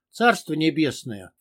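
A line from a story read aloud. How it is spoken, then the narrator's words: Gruff grumble. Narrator (Russian): буркнул бамут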